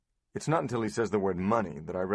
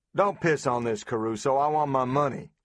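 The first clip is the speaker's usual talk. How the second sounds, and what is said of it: Harsh loud Southern accent. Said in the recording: “A southern chainsaw of a voice explodes in my ear. ... I recognize the accent.”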